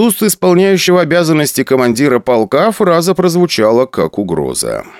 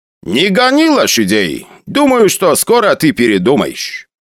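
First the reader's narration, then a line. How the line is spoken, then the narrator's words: Loud. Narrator (Russian): громко сказал Бажанян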